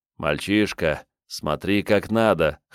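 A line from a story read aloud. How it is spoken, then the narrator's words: Inward snort. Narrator (Russian): хмыкнул про себя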